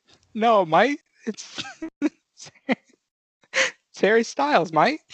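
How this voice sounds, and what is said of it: Imitated voice with put-on Australian accent. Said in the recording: “That's an Australian accent. ... That's my impression of Australian Harry Styles.”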